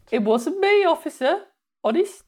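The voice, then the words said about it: Put-on Birmingham accent. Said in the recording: “Do that in a Birmingham accent. ... That's quite good.”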